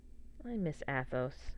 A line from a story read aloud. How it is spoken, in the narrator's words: she says quietly